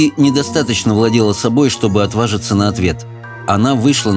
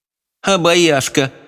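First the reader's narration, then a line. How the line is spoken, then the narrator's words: Snorting. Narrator (Russian): фыркнула покупательница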